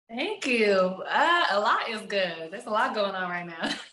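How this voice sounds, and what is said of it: Strong Texas accent. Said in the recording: “I hear the accent too. Man, definitely drenched in Texas”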